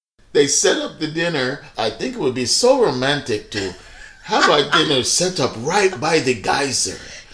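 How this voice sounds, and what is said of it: Fake Latin American Spanish accent. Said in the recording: “your fake Juan Pablo accent”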